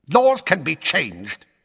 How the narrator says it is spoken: said Fudge savagely

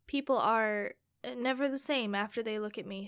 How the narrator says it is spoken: she said sadly

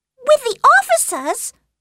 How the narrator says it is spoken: cried Lydia

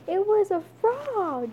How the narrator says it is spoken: yelled Stink

